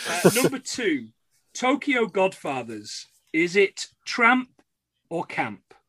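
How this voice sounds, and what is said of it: Usual voice. Nothing is said of it.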